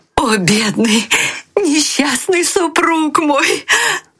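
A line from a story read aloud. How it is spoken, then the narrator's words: Woman shouting. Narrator (Russian): кричала она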